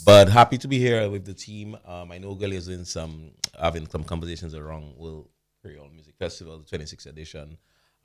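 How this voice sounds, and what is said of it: Hoarse voice. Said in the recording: “my voice is a bit hoarse”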